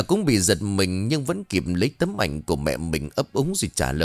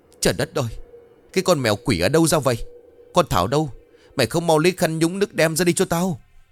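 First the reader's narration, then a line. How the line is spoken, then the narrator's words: Shrill screaming. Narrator (Vietnamese): vừa hét vừa chu chéo lên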